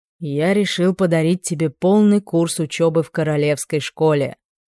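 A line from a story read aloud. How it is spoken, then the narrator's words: Solemn father. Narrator (Russian): торжественно произнес отец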